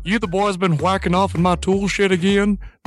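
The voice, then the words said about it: Hank Hill impression. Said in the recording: “you were doing Hank Hill”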